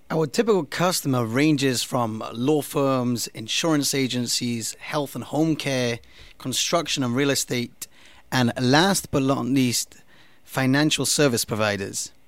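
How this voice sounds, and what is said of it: English accent. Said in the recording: “what's that accent? ... English. Born and bred.”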